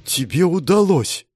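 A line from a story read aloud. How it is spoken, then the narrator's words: Surprised exhale. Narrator (Russian): удивленно выдохнул Решала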